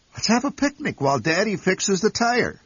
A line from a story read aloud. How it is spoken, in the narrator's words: suggested Mother cheerfully